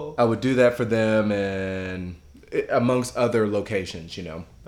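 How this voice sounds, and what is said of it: Usual voice. Nothing is said of it.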